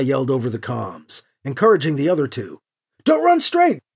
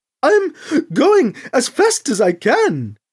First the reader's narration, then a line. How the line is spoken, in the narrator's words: Krish gasped